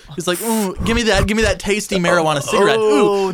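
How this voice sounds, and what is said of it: Imitates another person's voice. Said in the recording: “Seth Rogen sounds nothing like that ... No, I was doing Elon Musk.”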